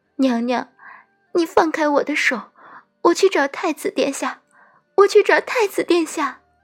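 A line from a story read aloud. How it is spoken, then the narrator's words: Crying. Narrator (Chinese): 奈奈哭着说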